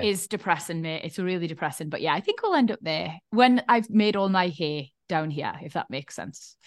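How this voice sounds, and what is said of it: Geordie accent. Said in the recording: “I want little Geordie accents in my house. I'm not being the only one who fucking speaks like this in my house.”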